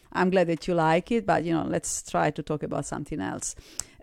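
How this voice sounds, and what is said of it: Italian accent in English. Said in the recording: “my accent, my Italian accent ... I know that I have an accent.”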